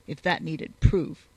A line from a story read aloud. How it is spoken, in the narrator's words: he muttered